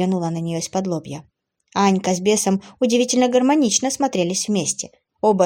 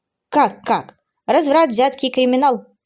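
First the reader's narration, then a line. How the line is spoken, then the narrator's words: Scoffing snort. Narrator (Russian): хмыкнул Алекс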